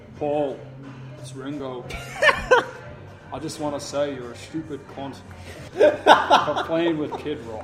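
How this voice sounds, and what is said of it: Thick accent, imitates another person's voice. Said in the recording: “hard to tell through that thick accent... Very thick accent there.”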